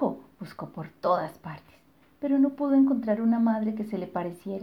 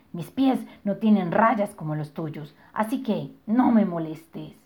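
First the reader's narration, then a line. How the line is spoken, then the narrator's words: Growled. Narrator (Spanish): gruñó la señora Morsa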